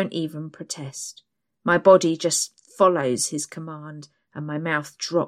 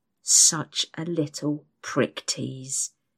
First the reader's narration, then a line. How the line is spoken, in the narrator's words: he hisses into my ear